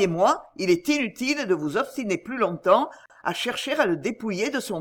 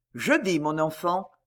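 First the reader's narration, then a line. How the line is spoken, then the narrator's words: Gentle reply. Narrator (French): répondit doucement Pardaillan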